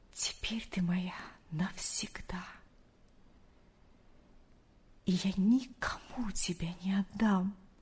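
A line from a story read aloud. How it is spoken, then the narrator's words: Whispered. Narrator (Russian): прошептал он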